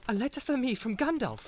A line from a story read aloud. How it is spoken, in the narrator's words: cried Frodo